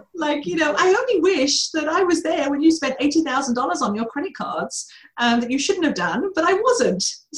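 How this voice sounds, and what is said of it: Distinct accent. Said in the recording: “my accent ... It is such a distinct voice ... with this accent, it will sound much nicer”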